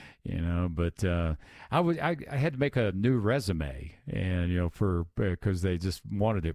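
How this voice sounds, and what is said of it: Usual voice. Nothing is said of it.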